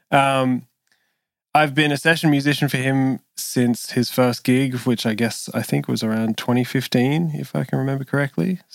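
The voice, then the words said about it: Australian accent. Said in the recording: “also from Sydney, Australia, where I am, if you can tell from my accent”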